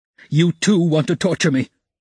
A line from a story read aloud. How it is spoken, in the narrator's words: he screamed, with such bitter irritation, such despair in his eyes